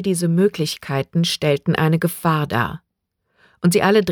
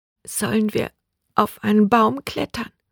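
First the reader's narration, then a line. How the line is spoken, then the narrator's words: Whispered. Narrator (German): flüsterte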